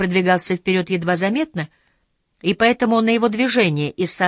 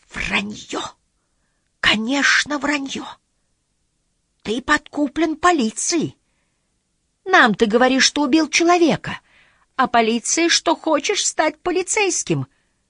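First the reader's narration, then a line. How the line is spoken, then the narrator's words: Weak voice. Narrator (Russian): заговорил слабым голосом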